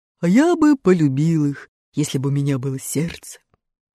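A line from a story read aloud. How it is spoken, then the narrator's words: Tin man's sigh. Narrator (Russian): вздохнул железный дровосек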